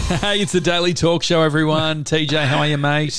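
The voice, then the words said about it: Higher, excitable broadcast radio voice. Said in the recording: “that radio voice ... Some kind of higher. ... It's a daily talk excitable. ... if we were on broadcast radio”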